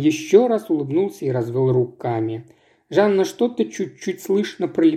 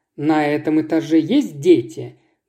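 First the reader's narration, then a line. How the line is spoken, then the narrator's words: Sharp young woman's question. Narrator (Russian): довольно резко поинтересовалась девушка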